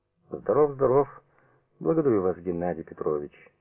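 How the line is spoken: Dry reply. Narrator (Russian): сухо отвечал

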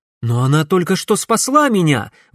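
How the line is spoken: Exclaim, young man. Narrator (Russian): воскликнул парень

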